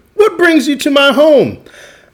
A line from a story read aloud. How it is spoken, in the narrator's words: Amu exclaimed